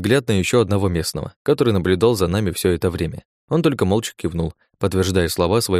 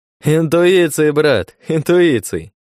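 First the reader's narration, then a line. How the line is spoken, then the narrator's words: Laughing. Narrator (Russian): Рассмеялся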